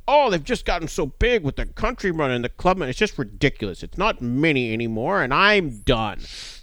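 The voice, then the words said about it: Imitates another person's voice. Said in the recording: “that was my best impression of James Day.”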